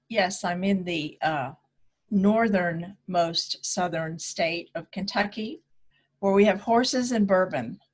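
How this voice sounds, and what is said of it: American accent. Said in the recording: “your beautiful American accent”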